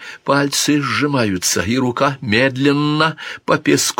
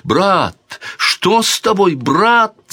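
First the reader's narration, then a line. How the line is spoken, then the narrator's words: Princess shouting. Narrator (Russian): закричала принцесса Марион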